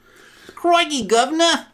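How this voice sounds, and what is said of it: Put-on Cockney accent. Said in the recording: “Cockney accent”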